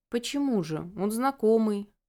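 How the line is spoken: Muttered under breath. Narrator (Russian): пробурчала себе под нос

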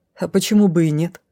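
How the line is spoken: Mocking snort. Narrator (Russian): хмыкнула насмешливо

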